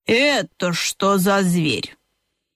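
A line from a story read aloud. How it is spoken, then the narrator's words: Displeased grumble. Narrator (Russian): Начала была ежиха недовольно проворчала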